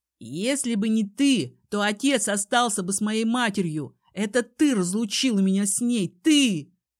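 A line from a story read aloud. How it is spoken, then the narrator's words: Shouting. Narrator (Russian): кричал он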